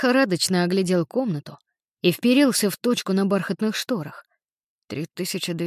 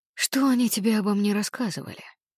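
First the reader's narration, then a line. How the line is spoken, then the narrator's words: Soft, friendly. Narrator (Russian): Его голос звучал мягко и дружелюбно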